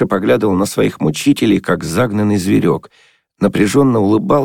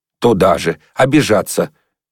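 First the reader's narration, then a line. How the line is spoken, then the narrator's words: Angry. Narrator (Russian): сердито сказала русоволосая красавица Катя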